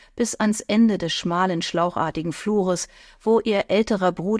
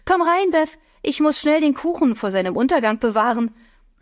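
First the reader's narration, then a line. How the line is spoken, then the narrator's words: Called down the hall. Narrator (German): rief sie in den Flur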